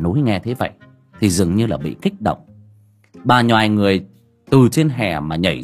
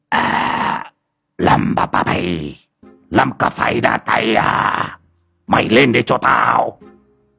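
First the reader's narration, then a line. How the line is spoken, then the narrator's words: Shout. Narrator (Vietnamese): quát lên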